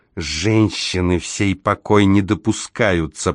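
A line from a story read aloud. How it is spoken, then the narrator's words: Hissing. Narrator (Russian): прошипел он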